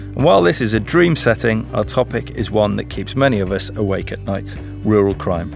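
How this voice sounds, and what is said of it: Voice sounding unwell. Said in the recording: “you might be able to tell from my voice that I'm not feeling too pretty myself today”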